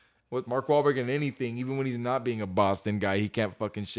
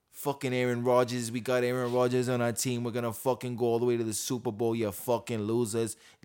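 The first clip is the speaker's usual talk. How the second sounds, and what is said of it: Put-on Boston-sounding accent. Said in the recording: “that's my best New York impression... was I Boston right now? Damn, I was Boston... it was more Boston than it was anything else.”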